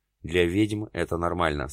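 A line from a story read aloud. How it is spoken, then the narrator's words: Plain. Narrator (Russian): сказала она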